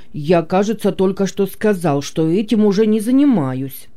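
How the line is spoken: Grumbling. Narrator (Russian): проворчал он

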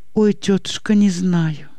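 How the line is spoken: Quiet sobbing. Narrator (Russian): тихо всхлипывает и Анна

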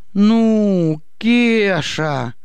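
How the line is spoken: Reproachful drawl. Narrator (Russian): протянул укоризненно

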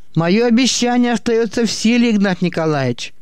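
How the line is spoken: Shouting after someone. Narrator (Russian): крикнул ему вслед Тарасов

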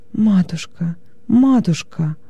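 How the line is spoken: Sobbing. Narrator (Russian): Не в силах среди рыданий вымолвить что-либо иное

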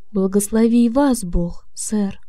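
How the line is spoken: Many voices, plain. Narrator (Russian): многие рабочие со словами

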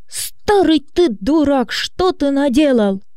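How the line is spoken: Shocked scream. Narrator (Russian): Побледнев, она закричала

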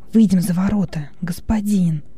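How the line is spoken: Whisper. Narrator (Russian): шепнул Хилон

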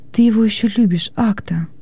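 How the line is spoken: Timid question. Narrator (Russian): робко спросила Лигия

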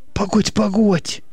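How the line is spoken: Muttering. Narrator (Russian): бормотал тот

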